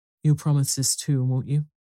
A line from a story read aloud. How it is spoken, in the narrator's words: said Mother